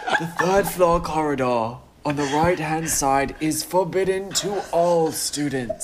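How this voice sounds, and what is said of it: Dumbledore character voice impression. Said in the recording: “can I practice my Dumbledore accent? ... That's pretty good.”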